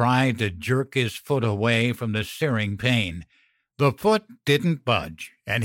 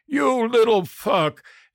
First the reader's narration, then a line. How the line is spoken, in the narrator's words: He roared